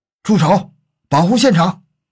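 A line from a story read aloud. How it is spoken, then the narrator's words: Loud commanding shout. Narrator (Chinese): 一个声音大喝道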